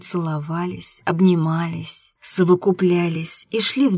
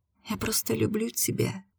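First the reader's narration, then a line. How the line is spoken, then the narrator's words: Quiet reply. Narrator (Russian): тихо ответила я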